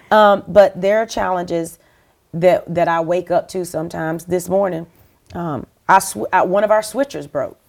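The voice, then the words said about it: Southern US accent. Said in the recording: “I'm a South Carolina girl... where are you from? South Carolina. Yeah, we can tell. The accent. I'm not going to lose my accent.”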